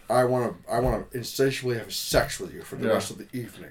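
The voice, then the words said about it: Refined voice from back of throat. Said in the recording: “we're stuck on the Connery voice ... It's more refined ... very refined. He talks out of the back of his throat.”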